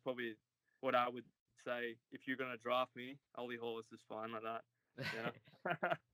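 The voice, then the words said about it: Australian accent. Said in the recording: “your accent is way freaking cooler than his ... your Australian accent”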